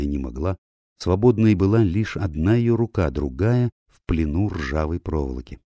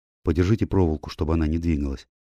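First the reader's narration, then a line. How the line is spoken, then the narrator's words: Quiet request. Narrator (Russian): тихо попросил он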